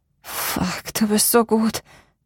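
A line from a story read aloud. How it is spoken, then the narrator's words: Moaned. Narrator (German): stöhnte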